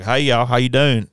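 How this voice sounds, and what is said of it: Put-on American Southern accent. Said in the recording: “get into a Southern accent”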